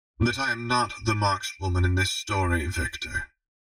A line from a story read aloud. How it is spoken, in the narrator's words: she said calmly